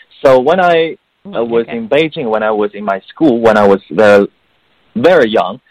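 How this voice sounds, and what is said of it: Chinese accent with British-sounding English. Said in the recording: “Although I have some Chinese accent, but most of the accent is sounding like British.”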